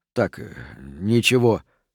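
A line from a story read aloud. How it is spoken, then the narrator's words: Mumbling. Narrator (Russian): пробормотал Рент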